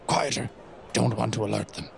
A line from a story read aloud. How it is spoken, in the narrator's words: Sebastian whispers